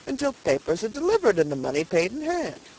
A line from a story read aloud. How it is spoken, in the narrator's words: said the purchaser with a chuckle